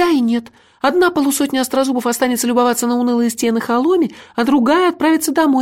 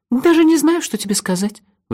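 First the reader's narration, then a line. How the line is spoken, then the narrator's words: Sighing. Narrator (Russian): вздохнула она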